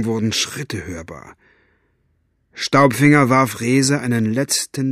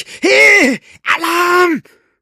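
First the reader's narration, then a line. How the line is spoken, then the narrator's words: Shouting again. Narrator (German): schrie er noch einmal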